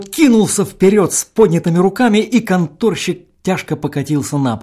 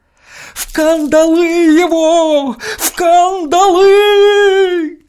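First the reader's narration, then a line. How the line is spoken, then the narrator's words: Moaning. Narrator (Russian): застонал Николай Еремеев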